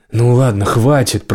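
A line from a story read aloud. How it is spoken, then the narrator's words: Growl. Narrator (Russian): прорычал Келл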